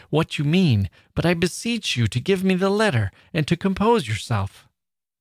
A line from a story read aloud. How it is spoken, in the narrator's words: cried I, half frightened